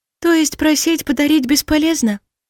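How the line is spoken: Sighing, elf princess. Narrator (Russian): вздохнула эльфийская принцесса

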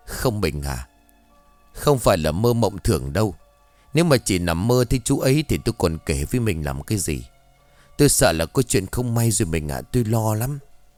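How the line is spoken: Sobbing woman, interrupting. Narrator (Vietnamese): Bà Trầm ngắt ngang lời của chồng bằng một giọng thổn thức

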